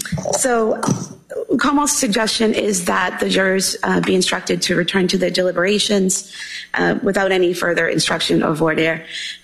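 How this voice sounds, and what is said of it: Voice in poor condition. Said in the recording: “I apologize for my voice.”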